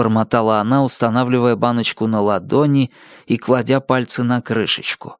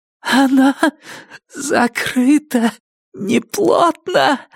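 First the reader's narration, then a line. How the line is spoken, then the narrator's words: Hoarse trembling exclamation. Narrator (Russian): воскликнула Джесси хриплым дрожащим голосом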